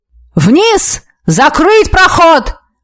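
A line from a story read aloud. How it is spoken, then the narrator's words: Yelling officer. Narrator (Russian): заорал сотник на башне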